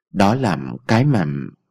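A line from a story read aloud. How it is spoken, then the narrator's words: Hesitant. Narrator (Vietnamese): Ông Thái ngập ngừng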